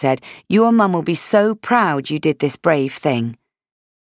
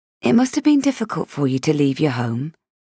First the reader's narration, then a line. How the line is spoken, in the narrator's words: she said softly